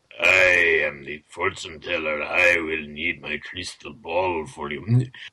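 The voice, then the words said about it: Thick put-on Slavic accent. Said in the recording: “Get a very thick Slavic accent.”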